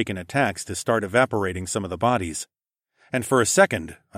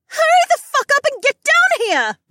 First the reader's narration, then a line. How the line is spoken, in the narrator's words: shrieked